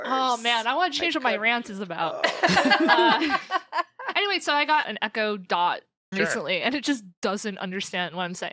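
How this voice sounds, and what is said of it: Brooklyn New Jersey accent. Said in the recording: “messed up Brooklyn, New Jersey accent ... It's a great accent. ... That's the saddest accent I've ever heard of. ... guy from Staten Island.”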